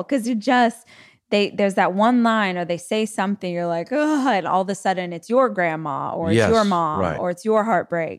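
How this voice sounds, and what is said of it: Strong regional accent. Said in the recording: “the accent went real strong”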